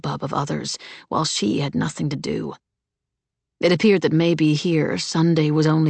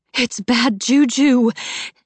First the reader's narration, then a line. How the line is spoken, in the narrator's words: she said breathlessly